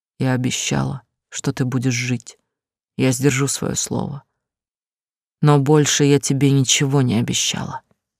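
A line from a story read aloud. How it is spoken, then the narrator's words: Quiet. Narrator (Russian): тихо сказала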